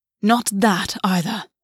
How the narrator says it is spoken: August hissed

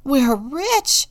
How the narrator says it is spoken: cried

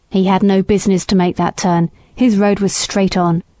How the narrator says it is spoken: said the man roughly

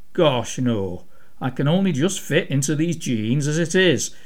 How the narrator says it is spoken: Abby replied, laughing

